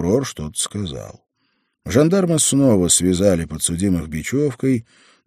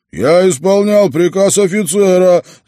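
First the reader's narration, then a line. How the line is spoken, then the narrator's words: Yelling. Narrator (Russian): заорал Шаламов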